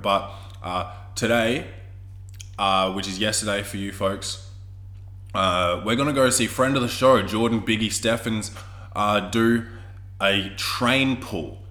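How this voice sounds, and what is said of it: Sick, congested-sounding voice. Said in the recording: “I am fucking sick again... you can hear it in my voice or my nose”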